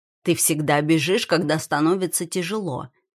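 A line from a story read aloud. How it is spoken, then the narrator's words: Plain. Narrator (Russian): наконец говорит он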